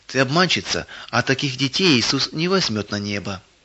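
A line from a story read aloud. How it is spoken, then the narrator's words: Quiet. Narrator (Russian): Как будто кто-то тихо сказал ей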